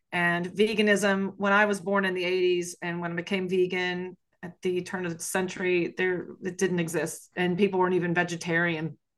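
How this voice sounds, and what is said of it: Southern US Appalachian accent. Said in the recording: “As you may be able to hear from my accent, I am from the South in the United States, and more specifically, I'm Appalachian.”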